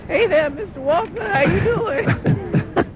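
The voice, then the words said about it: Impression of Reiner impersonating Herschel Walker. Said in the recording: “That's me impersonating Reiner impersonating Herschel Walker.”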